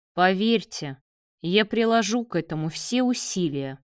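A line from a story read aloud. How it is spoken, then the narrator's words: Ominous tone. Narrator (Russian): зловещим тоном ответил Давид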